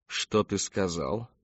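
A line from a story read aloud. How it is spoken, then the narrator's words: Calm questioning. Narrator (Russian): спокойно переспросил он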